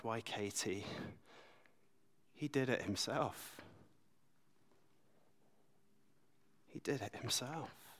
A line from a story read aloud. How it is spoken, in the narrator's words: Martin Luther gently replied